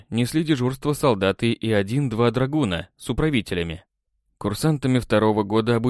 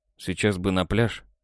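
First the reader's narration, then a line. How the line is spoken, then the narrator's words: Mumbled. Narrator (Russian): пробормотал я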